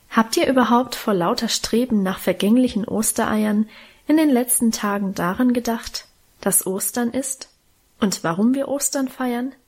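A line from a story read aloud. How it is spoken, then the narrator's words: Plain. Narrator (German): fragte Mutter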